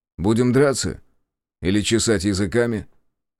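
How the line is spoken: Indifferent question. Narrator (Russian): спросил равнодушным тоном

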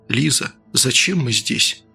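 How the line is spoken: Quiet question. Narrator (Russian): тихо спросил доктор

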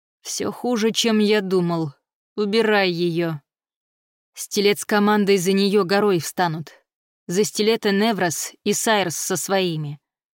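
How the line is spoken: Grim cursing command. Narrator (Russian): Пират мрачно выругался, приказал

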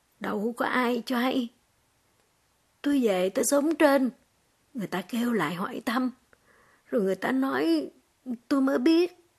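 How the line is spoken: Choked, tearful old man. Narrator (Vietnamese): Đôi mắt ông ứa lệ, giọng ông nghẹn ngào

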